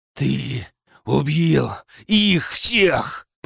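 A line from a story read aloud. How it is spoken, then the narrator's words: Furious growl. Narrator (Russian): прорычал, чувствуя, как ярость накрывает с головой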